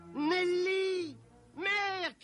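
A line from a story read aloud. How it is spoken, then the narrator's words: Shouted. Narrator (French): cria Robin lorsqu'il l'aperçut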